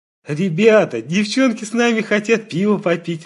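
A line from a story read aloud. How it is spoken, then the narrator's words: Joyful speech. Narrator (Russian): радостно сказал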